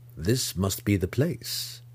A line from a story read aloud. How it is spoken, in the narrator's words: Zack muttered under his breath